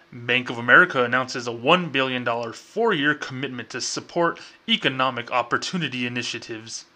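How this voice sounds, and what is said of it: Mock formal corporate bank voice. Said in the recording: “in my bank voice”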